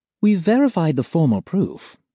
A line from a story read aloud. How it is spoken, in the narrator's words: she says smoothly